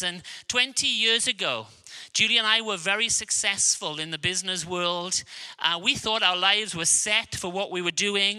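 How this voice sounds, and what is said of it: Welsh accent. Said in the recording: “I have a Welsh accent”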